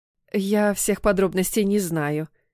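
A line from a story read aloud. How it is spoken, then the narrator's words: Guilty mother's tone. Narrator (Russian): виноватым тоном произнесла мама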